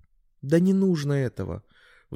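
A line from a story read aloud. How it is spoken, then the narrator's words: Sighing. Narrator (Russian): вздохнула Александра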